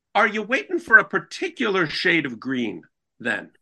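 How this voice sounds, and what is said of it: Put-on Irish old lady accent. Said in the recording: “I don't know what accent I was doing ... I sensed it was Irish”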